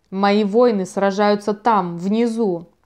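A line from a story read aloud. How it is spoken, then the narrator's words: Through gritted teeth. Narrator (Russian): процедил Рус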